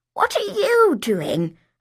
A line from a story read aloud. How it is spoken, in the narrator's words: I croaked